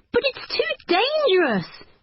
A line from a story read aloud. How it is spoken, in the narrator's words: cried Natalie